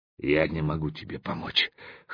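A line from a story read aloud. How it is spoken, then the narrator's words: Hoarse, then coughing. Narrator (Russian): хрипло сказал он и закашлялся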